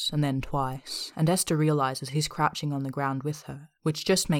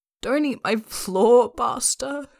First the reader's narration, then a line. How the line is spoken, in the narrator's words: she groans